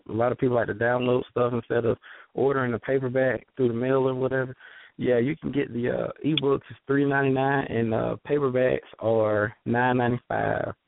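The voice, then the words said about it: Heavy Southern US accent with twang. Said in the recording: “your accent is heavy ... I just noticed that you ain't from up north ... some of your words had that ... twang on it”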